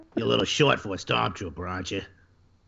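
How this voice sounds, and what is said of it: Imitates another person's voice. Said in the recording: “best Carrie Fisher impression I've heard in a long time”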